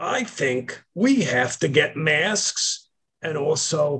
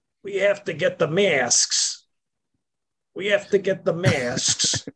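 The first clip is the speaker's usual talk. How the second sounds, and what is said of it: Elderly man's New York accent. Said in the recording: “a 105 year old walking around with a New York accent going”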